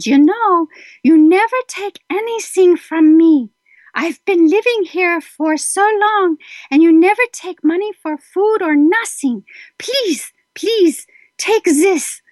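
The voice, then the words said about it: Imitated elderly German accent. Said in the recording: “in her little German accent”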